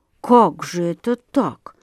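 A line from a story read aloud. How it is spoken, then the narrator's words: Distracted mumbling. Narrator (Russian): бормотал он, собираясь с мыслями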